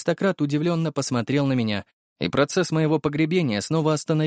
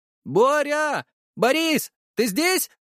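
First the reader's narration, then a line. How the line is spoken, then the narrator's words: Shout. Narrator (Russian): крикнул Дмитрий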